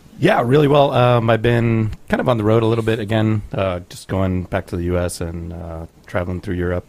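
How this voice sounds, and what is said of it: Texas American accent. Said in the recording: “I'll just stick with my Texas accent.”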